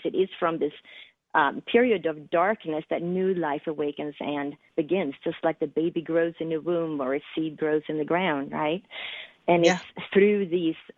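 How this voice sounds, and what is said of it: Slight Swedish accent. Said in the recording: “a little accent there”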